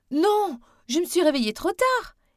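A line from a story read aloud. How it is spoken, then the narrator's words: Breathless exclamation. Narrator (French): s'exclama en rentrant en courant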